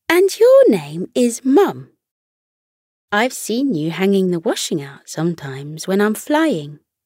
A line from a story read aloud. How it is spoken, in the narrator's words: warmly and said